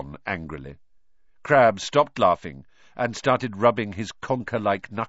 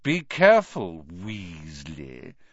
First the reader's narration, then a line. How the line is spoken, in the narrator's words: sneered Malfoy